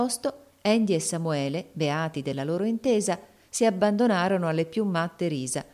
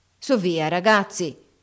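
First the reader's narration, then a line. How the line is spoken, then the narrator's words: Shouting. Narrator (Italian): gridò Haley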